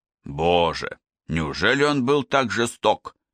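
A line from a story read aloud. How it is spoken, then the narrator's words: Anguished exclamation, head bowed. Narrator (Russian): воскликнул Брайант, уронив голову на грудь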